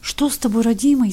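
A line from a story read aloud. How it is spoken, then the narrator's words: Frightened babbling, old woman. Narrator (Russian): испуганно лепетала старуха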